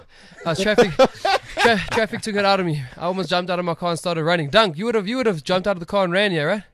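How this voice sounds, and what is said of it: Out of breath, panting speech. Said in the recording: “you can hear me. I'm out of breath, bro. Whew.”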